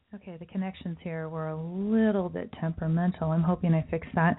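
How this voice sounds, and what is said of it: Sick-sounding voice. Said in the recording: “You can hear in my voice, I still am battling the sickness that I had last week”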